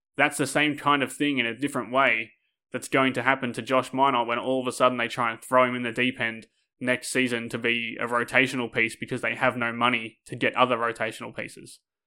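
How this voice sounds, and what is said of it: Annoyed, ranting tone. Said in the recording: “I know I'm ranting. You can probably hear in my voice that I'm annoyed”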